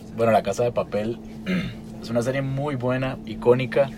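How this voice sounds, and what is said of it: Slightly hoarse voice. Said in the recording (Spanish): “con la voz un poco ronca, estoy un poco enfermo... estaba gritándome toda la mañana”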